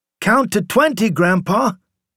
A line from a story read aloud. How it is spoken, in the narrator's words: the boy called out